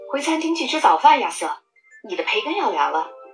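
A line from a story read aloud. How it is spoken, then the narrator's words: Loud announcement. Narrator (Chinese): 她大声宣布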